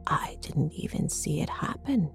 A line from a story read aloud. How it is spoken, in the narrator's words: she whispered